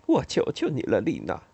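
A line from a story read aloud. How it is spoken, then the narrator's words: Crying, anxious. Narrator (Chinese): 他忽然哭了起来，眼里充满了泪水，在不安中，他说了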